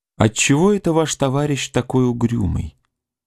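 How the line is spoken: Quiet question. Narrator (Russian): спросила Лиза тихо у Костякова

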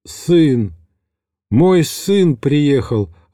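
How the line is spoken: Joyful repeated exclamation. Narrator (Russian): радостно повторял

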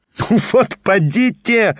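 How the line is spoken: Laughing. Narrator (Russian): рассмеялся Петр Степанович

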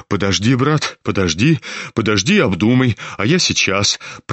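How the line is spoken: Hurried, almost frightened. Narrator (Russian): проговорил он в попыхах и почти испуганно

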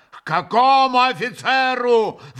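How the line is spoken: Yelling. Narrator (Russian): вопил Митя

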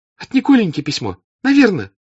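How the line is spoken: Excited cry. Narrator (Russian): вскрикнула Наташа, прочтя утвердительный ответ в лице Анны Михайловны

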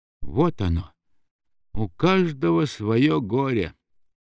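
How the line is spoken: Whispered. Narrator (Russian): прошептал он

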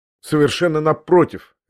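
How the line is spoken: Sharp interjection. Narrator (Russian): резко ввязался я опять

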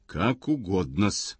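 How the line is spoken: Through gritted teeth. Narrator (Russian): Брехунов говорит сквозь зубы

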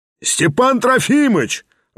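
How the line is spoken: Joyful roar. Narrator (Russian): радостно проревел семинарист

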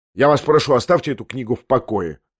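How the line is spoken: Sharp speech. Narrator (Russian): резко проговорил он

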